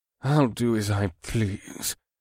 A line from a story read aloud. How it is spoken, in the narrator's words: the Zinkari man mumbled